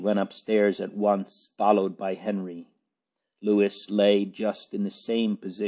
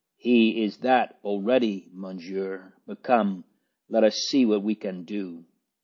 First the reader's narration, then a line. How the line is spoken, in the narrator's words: said gently